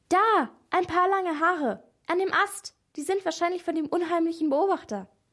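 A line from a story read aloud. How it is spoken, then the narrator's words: Sudden excited call. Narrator (German): Maria plötzlich aufgeregt rief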